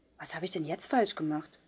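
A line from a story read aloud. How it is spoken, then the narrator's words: Quiet question. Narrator (German): fragte Polly leise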